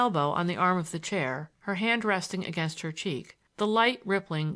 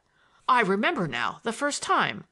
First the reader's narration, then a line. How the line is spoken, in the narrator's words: I exclaimed, more angry than I had ever been before in my life